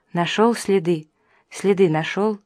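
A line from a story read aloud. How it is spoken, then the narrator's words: Fearful whisper. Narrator (Russian): Меланья зашептала в страхе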